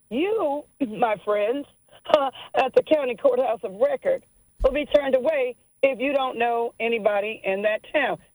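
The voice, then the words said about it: Southern US accent. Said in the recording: “you heard my accent, southern state”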